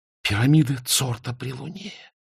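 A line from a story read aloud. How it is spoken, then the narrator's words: Breathless exhale. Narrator (Russian): выдохнула Изабель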